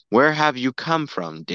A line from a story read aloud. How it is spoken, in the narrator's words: David asked him